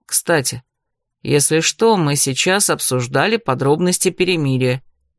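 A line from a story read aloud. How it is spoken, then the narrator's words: Quiet. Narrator (Russian): тихо проинформировал Дорс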